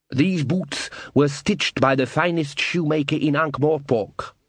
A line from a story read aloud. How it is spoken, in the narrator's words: said Cassanunda